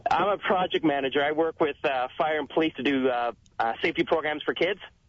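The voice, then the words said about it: Canadian accent. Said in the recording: “I like ... accent.”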